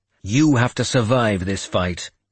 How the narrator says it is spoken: I said harshly

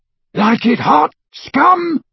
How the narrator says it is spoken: roared Crabbe as he ran

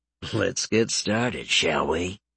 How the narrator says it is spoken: He muttered to himself

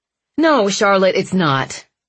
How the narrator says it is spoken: he said loudly

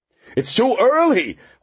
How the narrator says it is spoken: Horlocker cried

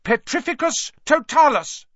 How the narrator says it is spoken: she cried

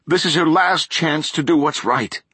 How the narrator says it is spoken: Rachel said, intense and pleading now

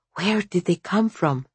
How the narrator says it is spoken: She whispered

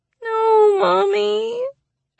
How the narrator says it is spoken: Allie whines

